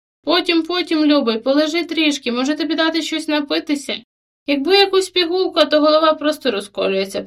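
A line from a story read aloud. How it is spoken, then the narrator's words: Moan. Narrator (Ukrainian): простогнав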